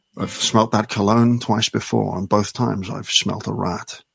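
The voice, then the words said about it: Sean Connery impression. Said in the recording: “Sean Connery accent, please. Sean Connery accent. If you want to speak like Sean Connery, you have to speak like this.”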